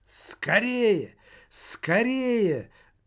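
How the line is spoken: Shouting. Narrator (Russian): кричал Немаркетинг

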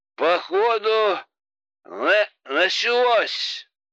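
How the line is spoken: Drunken voice, perhaps feigned. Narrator (Russian): Пьяным голосом, я надеюсь, что наигранным, отозвался Богдан

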